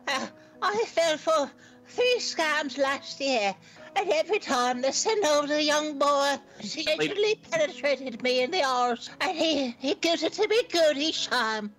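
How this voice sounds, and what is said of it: Heavy, hard-to-understand English accent. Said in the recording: “someone with a very hard-to-understand English accent”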